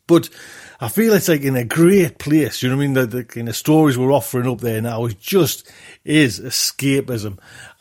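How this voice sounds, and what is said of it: Strong Geordie accent. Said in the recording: “there's a strong accent, Geordie accent.”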